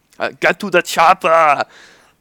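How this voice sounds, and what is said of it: Arnold Schwarzenegger impression. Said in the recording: “I can do Arnold Schwarzenegger”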